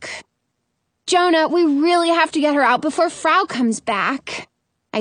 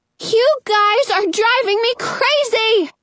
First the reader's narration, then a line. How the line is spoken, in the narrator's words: Rapunzel yells